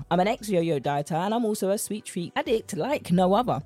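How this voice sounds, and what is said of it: British accent. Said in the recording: “my British accent”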